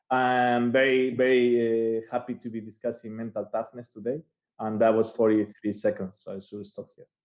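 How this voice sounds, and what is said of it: Spanish accent in English. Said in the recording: “As you might have noticed by my accent ... Spanish by birth”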